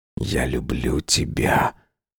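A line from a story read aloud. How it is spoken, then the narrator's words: Whisper against lips. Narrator (Russian): прошептал я ему в губы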